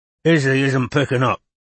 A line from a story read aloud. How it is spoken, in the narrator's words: he informed her through clenched teeth